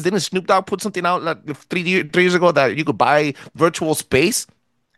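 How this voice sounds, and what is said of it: Thick Latino accent. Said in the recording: “I have a thick accent.”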